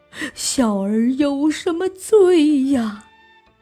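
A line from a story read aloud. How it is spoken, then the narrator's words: Crying. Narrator (Chinese): 明宗哭道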